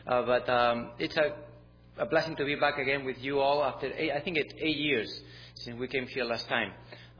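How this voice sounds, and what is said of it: Spanish-accented English. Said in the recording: “my accent is not from here, not even from the south. We're from Spain, so wherever we go, our accent come with me.”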